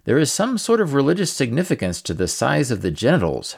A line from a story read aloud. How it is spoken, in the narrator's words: Herodotus noted dryly